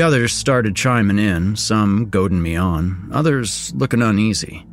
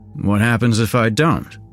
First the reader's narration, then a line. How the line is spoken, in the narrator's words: I asked, trying to keep my voice steady